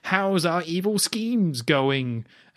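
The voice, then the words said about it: Imitates Blofeld's villain voice. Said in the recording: “That is a great Blofeld impression... You nailed that.”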